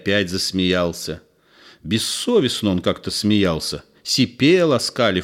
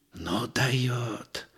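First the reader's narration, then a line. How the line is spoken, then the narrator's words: Mock-admiring whisper. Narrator (Russian): прошептал в притворном восхищении Михайлыч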